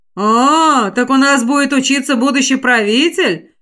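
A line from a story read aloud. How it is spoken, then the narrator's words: Unkind chuckle. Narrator (Russian): Как-то не по-доброму хохотнул Орзан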